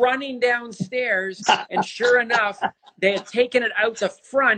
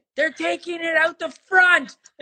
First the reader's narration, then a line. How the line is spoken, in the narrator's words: yelled out really loud